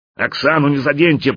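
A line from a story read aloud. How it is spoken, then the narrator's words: Elephant roaring. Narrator (Russian): проревел слон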